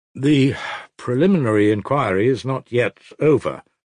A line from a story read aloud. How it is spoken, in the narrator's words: Nikolai Parfenovich faltered, somewhat embarrassed